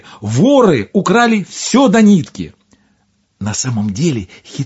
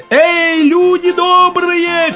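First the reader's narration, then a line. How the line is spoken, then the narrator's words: Shouting while running. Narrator (Russian): крикнул он на бегу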